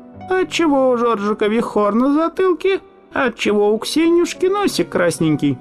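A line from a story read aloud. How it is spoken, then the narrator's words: Squeaky puppet voice. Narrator (Russian): перчатка начинала тоненьким голоском разговаривать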